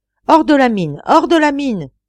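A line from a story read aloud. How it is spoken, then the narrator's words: Alarmed shout. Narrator (French): cria l'ingénieur, qui, ayant compris l'imminence du danger, vint jeter ce cri d'alarme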